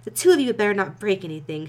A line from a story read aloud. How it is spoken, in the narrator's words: she exclaimed shrilly